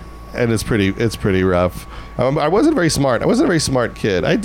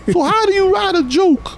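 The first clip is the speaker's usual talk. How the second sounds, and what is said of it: Strong Long Island accent. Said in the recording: “I have a very strong Long Island accent.”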